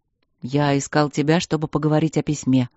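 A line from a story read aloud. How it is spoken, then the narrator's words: Dragon grumbling. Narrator (Russian): пробурчал дракон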